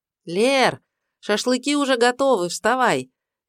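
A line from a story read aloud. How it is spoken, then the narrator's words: Cheerful call from afar. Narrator (Russian): весело позвала ее из беседки Даша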